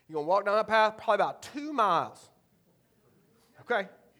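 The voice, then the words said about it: Thick Eastern North Carolina accent. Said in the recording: “he's got a thick Eastern North Carolina accent”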